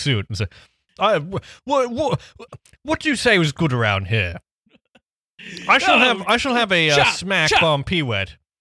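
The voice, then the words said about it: Upper-crust posh English accent. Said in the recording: “He looks like he'd have a very upper crust accent.”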